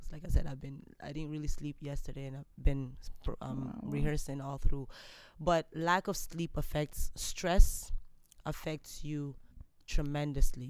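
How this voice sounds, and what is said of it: Slightly hoarse voice. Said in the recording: “You can hear my voice is a bit hoarse.”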